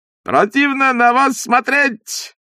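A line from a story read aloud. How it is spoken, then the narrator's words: Shouting. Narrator (Russian): кричал он провожающим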